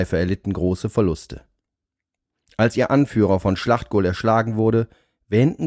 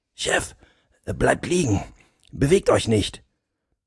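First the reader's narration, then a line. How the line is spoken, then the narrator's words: Quiet. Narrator (German): sprach er leise zum Oberst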